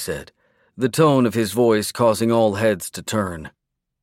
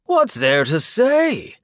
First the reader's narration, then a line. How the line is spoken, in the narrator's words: Aster said, exchanging a chuckle with Mara